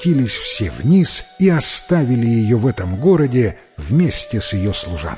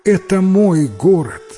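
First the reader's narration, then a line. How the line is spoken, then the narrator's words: Woman exclaiming. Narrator (Russian): хозяйка медного дворца воскликнула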